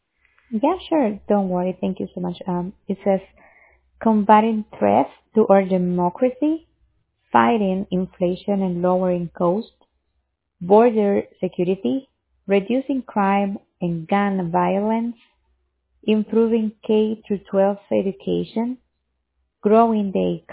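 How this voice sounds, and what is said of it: Hard-to-understand accent. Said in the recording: “I'm having trouble understanding your accent”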